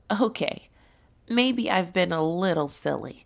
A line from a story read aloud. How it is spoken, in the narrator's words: Timmy the Tiger laughed